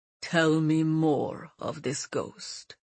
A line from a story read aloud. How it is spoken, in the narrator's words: he said solemnly